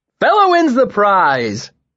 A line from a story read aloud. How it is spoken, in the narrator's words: Elodin shouted